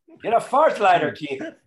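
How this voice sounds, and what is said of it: Bad put-on Irish accent. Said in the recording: “My Irish accent that he taught me ... a horrible accent I did ... shitty Irish accent”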